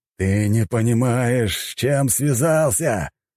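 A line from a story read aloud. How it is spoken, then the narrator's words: Growling rooster. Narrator (Russian): рычал боевой петух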